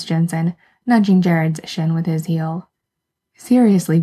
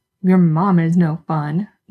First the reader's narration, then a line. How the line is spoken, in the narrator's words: Jared grumbles